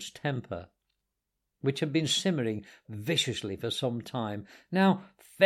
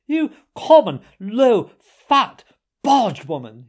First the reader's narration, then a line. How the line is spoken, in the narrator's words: he shouted